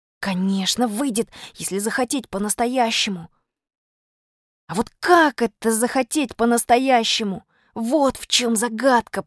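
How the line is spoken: Whispered. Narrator (Russian): прошептал я

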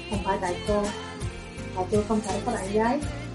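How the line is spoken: Soft reply after a pause. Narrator (Vietnamese): Sở Thu Phàm lặng yên một lúc mới khẽ trả lời

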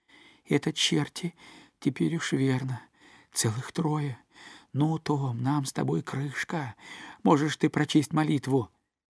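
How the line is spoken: Trembling whisper. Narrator (Russian): прошептал весь дрожа

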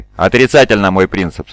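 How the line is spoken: Plain. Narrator (Russian): ответил Баннан

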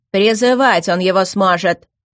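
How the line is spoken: Irritated. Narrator (Russian): раздраженно ответил лорд Тагуан

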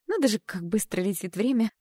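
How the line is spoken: Slightly agitated. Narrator (Russian): произношу немного взволнованно

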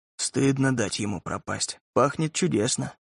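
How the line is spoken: Muttered. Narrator (Russian): бормотал Рашид

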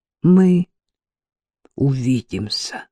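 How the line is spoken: Trembling voice, promising. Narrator (Russian): дрогнувшим голосом пообещал немец

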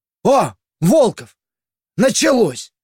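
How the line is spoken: Shout from above. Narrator (Russian): Откуда-то сверху закричал визирь

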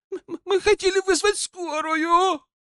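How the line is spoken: Tearful shout. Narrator (Russian): сквозь слезы выкрикнула Катя

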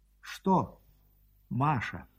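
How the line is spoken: Tender question. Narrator (Russian): ласково спросила она

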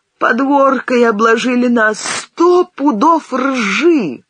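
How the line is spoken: Sobbing speech. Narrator (Russian): всхлипывая, кривя губы, сказала

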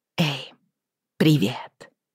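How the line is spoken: Whisper. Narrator (Russian): прошептала она

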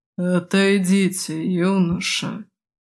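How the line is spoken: Muffled voice, leader. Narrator (Russian): глухо промолвил главарь

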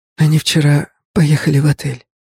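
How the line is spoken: Lazy whisper. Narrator (Russian): лениво прошептала девушка

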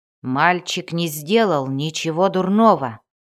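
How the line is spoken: Barking. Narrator (Russian): рявкнул Вульфгар

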